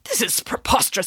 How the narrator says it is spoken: sputtered the vice principal

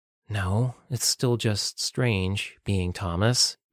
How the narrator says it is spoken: Madison sighed

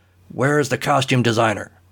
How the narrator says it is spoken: Blazer barked

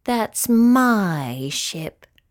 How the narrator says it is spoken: moaned the cat

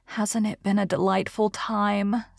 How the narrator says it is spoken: sighed Anne rapturously

